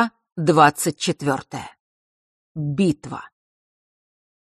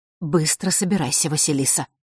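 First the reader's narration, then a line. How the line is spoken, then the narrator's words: Quiet hurried order. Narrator (Russian): тихо и торопливо велела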